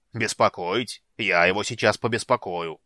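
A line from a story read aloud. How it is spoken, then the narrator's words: Muffled grumbling. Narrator (Russian): проворчал Бас за стенкой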